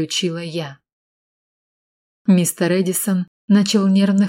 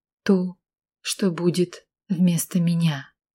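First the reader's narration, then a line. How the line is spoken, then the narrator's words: Quiet. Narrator (Russian): произнесла тихо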